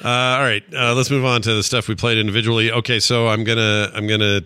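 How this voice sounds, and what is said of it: Usual voice. Nothing is said of it.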